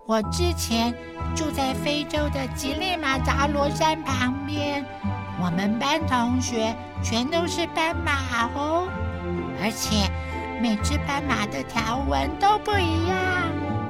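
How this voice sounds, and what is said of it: Speaking in a soft, quiet voice. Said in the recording (Chinese): “讲话也小小声”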